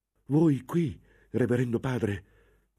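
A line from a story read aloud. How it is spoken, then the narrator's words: Novice exclaiming. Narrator (Italian): esclamò il novizio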